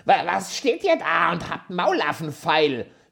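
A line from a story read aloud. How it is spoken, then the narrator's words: Furious dwarf shouting. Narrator (German): schrie der Zwerg und sein arschgraues Gesicht war zinnoberrot vor Zorn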